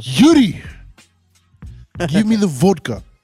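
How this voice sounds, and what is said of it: Put-on Russian accent. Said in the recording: “She's supposed to have a Russian accent. ... Let me hear yours.”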